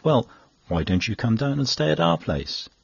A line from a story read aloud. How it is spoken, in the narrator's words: she very kindly said